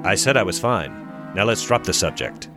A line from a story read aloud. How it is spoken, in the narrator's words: John harshly replies